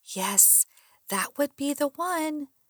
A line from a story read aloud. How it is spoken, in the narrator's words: Peering hard, trying to get a glimpse of the driver, I whispered